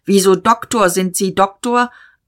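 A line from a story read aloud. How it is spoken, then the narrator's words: Called out. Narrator (German): Diederich rief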